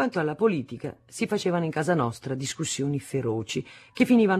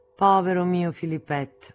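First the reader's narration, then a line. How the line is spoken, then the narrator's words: Sighing. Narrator (Italian): mia madre, che non trovava che l'ingenuità fosse una colpa, annuiva, sospirava e diceva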